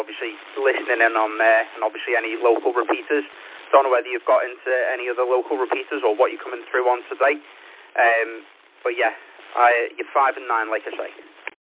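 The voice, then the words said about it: Liverpool accent. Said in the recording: “you've got a nice Liverpoolian accent there”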